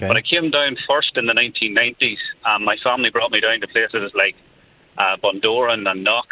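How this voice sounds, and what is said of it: Northern Irish accent. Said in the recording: “You can tell by the accent, Joe, I come from the north.”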